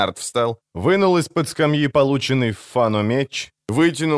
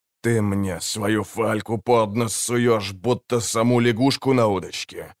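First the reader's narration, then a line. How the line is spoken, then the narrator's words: Grumbling. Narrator (Russian): проворчал Винсор Имбра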